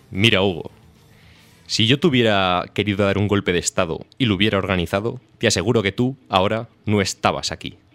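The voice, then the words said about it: Imitates another person's voice. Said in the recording (Spanish): “¿Puedes poner voz de Aznar?”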